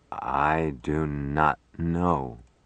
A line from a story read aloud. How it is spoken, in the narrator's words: Smith answered slowly